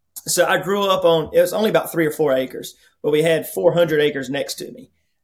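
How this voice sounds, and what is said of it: Rural regional accent. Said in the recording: “I grew up in a hyper rural area to start off with. You could probably tell by my accent.”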